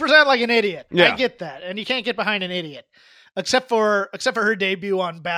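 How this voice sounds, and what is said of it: Usual voice. Nothing is said of it.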